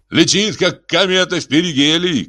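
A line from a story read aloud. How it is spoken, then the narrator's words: Shouting. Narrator (Russian): крикнул Риос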